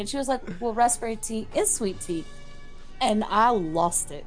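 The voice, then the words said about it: Thick regional accent. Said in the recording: “sometimes my accent is thick”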